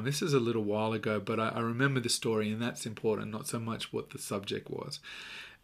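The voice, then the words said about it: Australian accent. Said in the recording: “haven't picked up on the accent, I'm Australian”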